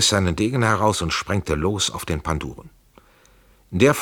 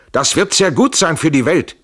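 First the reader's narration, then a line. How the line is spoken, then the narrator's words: Shouted. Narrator (German): schrie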